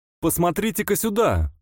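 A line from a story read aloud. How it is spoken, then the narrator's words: Excited shout. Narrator (Russian): крикнул взволнованный Уайтсайд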